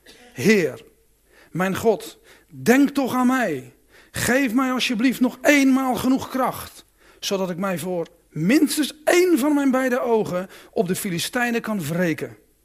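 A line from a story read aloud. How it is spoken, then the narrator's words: Praying, crying for help. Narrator (Dutch): Simson riep de Heer om hulp en bad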